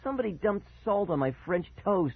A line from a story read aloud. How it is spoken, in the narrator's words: I exclaimed angrily